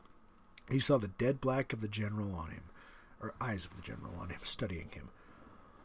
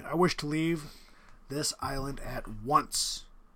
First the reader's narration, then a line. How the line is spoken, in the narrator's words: said Rainsford firmly